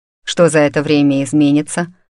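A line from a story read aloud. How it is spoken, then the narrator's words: Cold question. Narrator (Russian): спросил Максимус холодно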